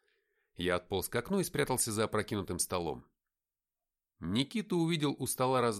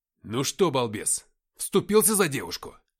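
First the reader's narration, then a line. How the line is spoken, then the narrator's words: Barked. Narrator (Russian): рявкнул я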